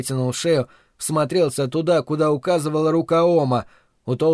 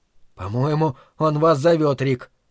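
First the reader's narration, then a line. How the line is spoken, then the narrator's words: Shaken, forced out. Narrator (Russian): потрясенно выдавил Дриан от волнения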